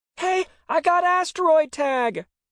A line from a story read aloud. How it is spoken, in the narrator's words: he shouted